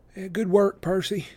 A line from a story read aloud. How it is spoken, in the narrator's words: Clarice muttered